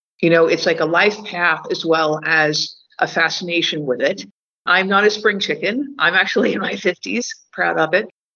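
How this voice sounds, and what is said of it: American accent. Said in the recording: “I have an American accent”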